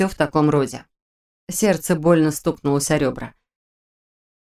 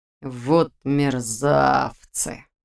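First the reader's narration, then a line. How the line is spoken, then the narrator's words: Through gritted teeth. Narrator (Russian): процедил Нейп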